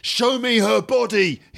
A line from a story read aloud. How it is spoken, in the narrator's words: he shouts